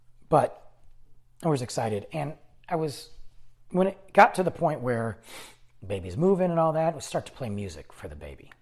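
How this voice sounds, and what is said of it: Strained, fading hoarse voice. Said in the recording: “I'm losing my voice, guys. I've been talking so much today”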